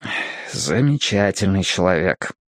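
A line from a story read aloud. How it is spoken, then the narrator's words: Sigh. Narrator (Russian): вздохнул я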